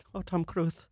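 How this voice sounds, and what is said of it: Imitates another person's voice. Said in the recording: “do the Penelope Cruz voice ... Please do the Penelope Cruz.”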